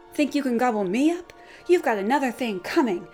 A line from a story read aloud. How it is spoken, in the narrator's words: he threatened